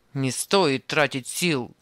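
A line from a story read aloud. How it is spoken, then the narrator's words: Rough grumble. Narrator (Russian): грубо пробурчал Анисим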